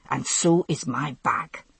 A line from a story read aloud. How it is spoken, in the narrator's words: Jamie interrupted savagely